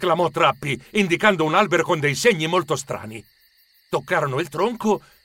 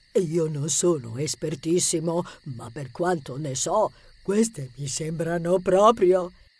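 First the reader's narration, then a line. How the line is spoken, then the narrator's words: Faint whisper. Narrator (Italian): sussurrò con voce flebile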